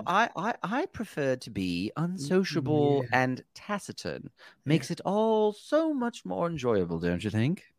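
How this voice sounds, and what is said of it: Put-on snobby British accent. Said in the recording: “read it in a British accent ... a snobby vibe ... somebody who's snarky”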